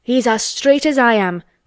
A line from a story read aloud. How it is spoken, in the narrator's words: cried Dickon